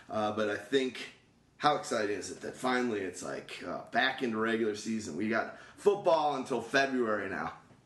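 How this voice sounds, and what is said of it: Hoarse, strained voice. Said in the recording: “my voice is a little bit shot”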